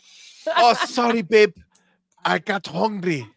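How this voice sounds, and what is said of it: Put-on accent. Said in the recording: “I don't know why I made that accent.”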